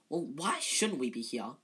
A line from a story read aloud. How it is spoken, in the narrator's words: said Ron hotly